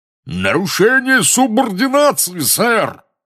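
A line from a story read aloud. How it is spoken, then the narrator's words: Roaring stout wizard. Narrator (Russian): взревел дородный красноносый волшебник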